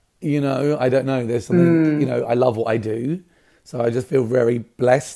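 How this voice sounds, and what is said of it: Slightly raspy voice. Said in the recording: “my voice is a bit raspy”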